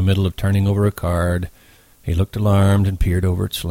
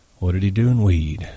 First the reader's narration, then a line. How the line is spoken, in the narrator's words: Slim asked calmly